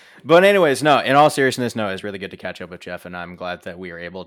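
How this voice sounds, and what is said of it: Usual voice. Nothing is said of it.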